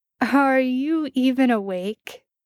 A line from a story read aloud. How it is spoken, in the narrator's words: Jared asked, a laugh on the tip of his tongue